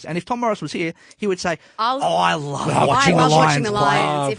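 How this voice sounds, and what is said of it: Imitates another person's voice. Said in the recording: “that's probably the best impression I've heard of Tom for quite some time”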